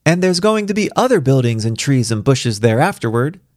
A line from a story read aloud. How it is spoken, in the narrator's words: Star called out with glee